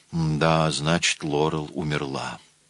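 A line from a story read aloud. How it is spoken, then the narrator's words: Grim admission. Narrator (Russian): мрачно признала она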